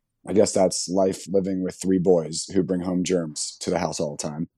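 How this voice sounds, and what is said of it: Hoarse voice. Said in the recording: “My voice is a bit hoarse”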